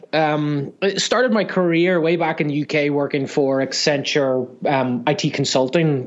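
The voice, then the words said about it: Northern Irish accent. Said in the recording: “I originally come from uh, Northern Ireland ... the accent hasn't quite left me yet”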